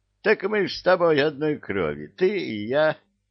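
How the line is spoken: Laughing, devil. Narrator (Russian): засмеялся дьявол

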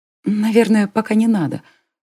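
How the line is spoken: Whisper. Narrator (Russian): снова прошептала Аманда

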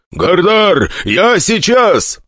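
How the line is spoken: Shouted. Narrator (Russian): прокричал Йонер

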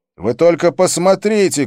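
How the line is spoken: Shouting. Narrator (Russian): кричал я

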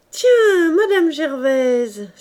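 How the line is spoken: Beaming, joyful exclamation. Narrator (French): s'écria-t-il, la face épanouie

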